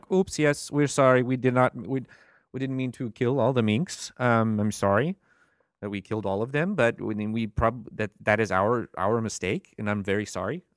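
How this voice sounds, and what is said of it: Put-on Danish accent. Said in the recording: “I'm working on my Danish accent, and I'm going to keep working on it”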